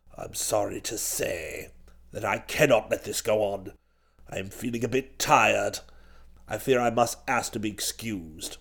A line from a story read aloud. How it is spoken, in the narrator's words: said old Chiswick in that same rummy voice